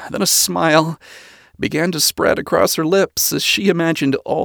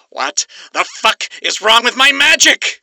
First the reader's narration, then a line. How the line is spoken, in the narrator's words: He screamed